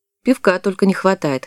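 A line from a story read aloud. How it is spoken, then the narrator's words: Boy's scoffing snort. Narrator (Russian): хмыкнул мальчишка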